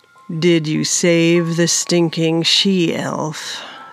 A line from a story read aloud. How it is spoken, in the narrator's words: Sir Manos said flatly